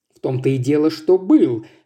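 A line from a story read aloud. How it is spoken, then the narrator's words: Exclaimed. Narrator (Russian): воскликнул Ившем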